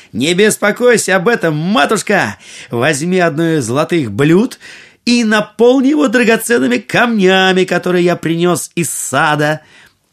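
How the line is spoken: Cheerful shout. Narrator (Russian): Аладдин весело крикнул

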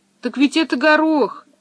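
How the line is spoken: Disappointed exclamation. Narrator (Russian): разочарованно воскликнул Томми

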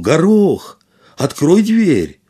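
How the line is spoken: Shouted. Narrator (Russian): он крикнул

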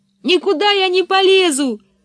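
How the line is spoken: Yelling. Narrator (Russian): заорала Анника

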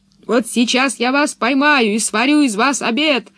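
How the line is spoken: Monster shouting. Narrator (Russian): кричало чудовище

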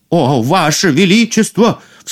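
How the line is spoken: Sudden cry. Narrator (Russian): вскрикнул повар

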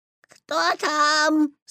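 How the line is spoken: Imitating grandmother's voice. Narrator (Russian): спросил Петя, стараясь говорить бабушкиным голосом

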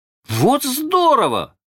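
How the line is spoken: Shouting in unison. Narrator (Russian): закричали Майкл и Джон в один голос

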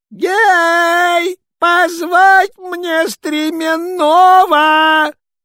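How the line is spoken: Shouting. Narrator (Russian): Царь посыльным закричал

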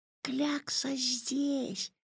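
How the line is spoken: Whisper. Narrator (Russian): прошептал Ваня

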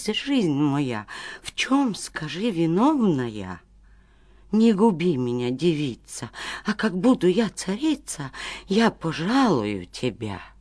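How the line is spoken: Terrified pleading. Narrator (Russian): царевна догадалась и до смерти испугалась и взмолилась

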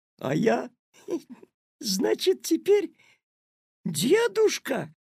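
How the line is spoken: Loud laughter. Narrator (Russian): расхохотался Петя

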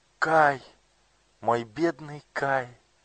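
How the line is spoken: Exclaiming. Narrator (Russian): воскликнула Герда

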